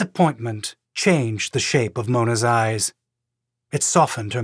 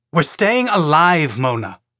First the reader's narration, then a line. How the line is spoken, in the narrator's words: he snapped